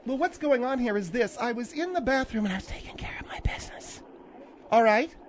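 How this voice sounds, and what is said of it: Whispering. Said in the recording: “You're whispering again”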